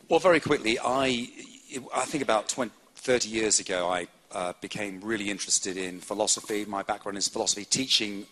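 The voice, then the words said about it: English BBC-style accent. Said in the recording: “I am from English ... I speak the purest kind of English, which is BBC English ... my particular accent”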